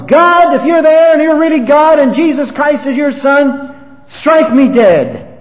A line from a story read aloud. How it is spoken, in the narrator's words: The revolutionary leader screamed at the top of his lungs